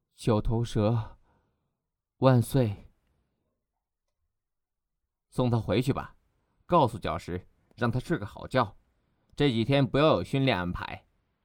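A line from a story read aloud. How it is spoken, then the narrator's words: Soft murmur after pause. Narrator (Chinese): 沉默了半晌，轻声呢喃道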